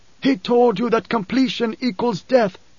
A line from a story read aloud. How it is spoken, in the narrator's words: the preacher shouted